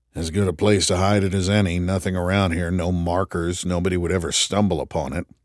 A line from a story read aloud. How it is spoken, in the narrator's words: Tripp mumbled